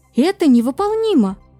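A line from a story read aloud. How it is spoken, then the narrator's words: Exclamation. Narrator (Russian): воскликнул Кларинда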